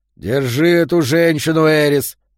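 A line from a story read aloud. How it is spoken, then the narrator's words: Growl. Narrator (Russian): прорычал Йо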